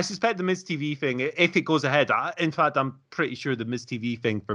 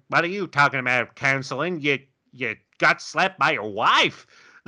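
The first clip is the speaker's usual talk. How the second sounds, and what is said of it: Imitates another person's voice. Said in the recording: “My AJ impression needs a bit of work. ... I think that's actually pretty close”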